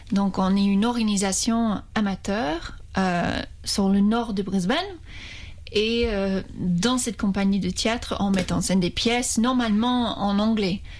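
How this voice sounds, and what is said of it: Australian accent speaking French. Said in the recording (French): “on peut l'entendre à ton accent ... je suis australienne”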